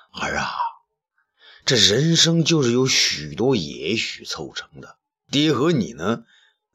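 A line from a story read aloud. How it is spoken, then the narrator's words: Sighing. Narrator (Chinese): 东方朔叹道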